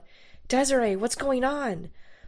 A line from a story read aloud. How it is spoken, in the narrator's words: in a panic confusion, I yelled out